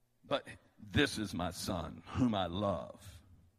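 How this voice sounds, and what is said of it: Deep resonant voice. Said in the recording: “he has a real deep voice that just resonates like this”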